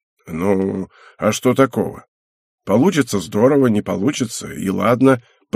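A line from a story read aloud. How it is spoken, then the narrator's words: Muttering. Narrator (Russian): пробормотал Кента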